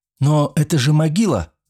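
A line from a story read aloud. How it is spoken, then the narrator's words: Exclamation. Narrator (Russian): воскликнул я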